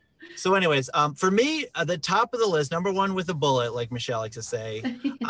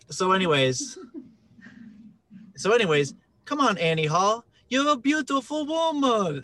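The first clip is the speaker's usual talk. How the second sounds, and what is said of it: Imitates another person's voice. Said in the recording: “I do an okay Woody Harrelson impression.”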